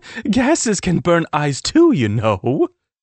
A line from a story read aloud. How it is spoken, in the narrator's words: she laughed